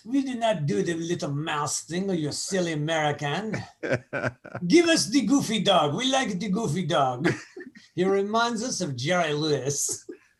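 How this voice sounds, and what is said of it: Bad French accent. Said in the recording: “That was my bad French accent.”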